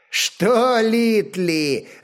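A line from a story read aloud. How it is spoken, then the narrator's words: Loud laughter, stocky man. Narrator (Russian): расхохотался невысокий коренастый викинг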